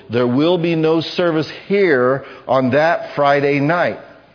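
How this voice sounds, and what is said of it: Speaks very slowly. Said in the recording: “say this very slowly.”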